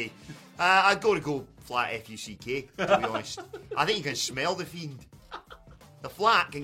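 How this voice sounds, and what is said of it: Usual voice. Nothing is said of it.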